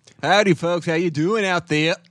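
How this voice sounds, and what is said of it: Put-on Boston and English accent mix. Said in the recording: “That's not what his voice sounds like... what accent was that?... I'm doing like a little Boston, a little bit of English”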